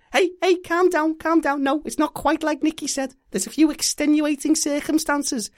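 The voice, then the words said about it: Put-on Scouse accent. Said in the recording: “my Austrian accent was failing, so I went to Scouse”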